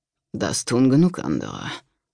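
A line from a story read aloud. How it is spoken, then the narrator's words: Murmur. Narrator (German): murmelte Hiltrud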